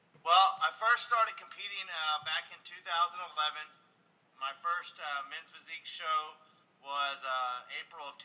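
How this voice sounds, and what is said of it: Strong Texas accent. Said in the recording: “he's from Texas. He's got the strong Texas accent going on.”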